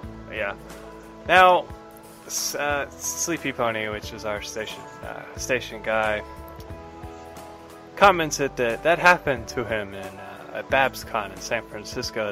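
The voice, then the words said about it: Slight Southern drawl. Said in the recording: “I talk like this a lot, and I got a bit of a southern drawl”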